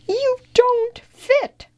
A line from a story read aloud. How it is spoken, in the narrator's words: cried Leo